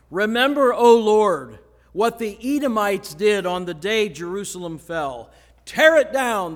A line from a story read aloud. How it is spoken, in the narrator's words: cried